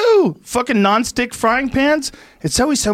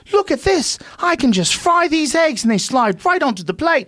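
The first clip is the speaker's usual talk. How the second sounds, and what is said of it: Put-on proper English accent. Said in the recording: “some man with a proper accent ... English accents”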